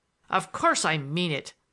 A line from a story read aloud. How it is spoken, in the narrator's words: I thundered at him